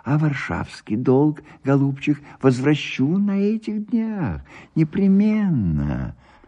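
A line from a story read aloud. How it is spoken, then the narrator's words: Shy whisper. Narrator (Russian): слышался стыдливый шепот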